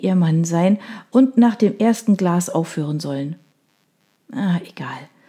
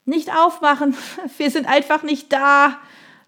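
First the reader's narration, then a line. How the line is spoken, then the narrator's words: Laughing. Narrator (German): Laurie lachte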